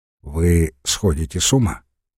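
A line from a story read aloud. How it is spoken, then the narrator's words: Quiet. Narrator (Russian): проговорил тихо Горданов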